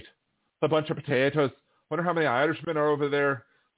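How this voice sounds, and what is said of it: Put-on Irish accent. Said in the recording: “got to go back to my wee Irish accent ... talking in my Irish accent”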